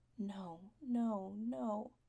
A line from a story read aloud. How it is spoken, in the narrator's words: Spencer whispering